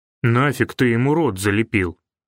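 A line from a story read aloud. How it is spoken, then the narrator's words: Grumbling, forced commanding tone. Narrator (Russian): Буркнул Тиш, пытаясь хотя бы командирским тоном вернуть себе уверенность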